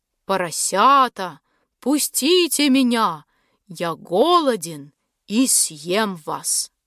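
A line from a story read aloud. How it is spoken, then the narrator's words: Wolf's growl. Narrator (Russian): зарычал волк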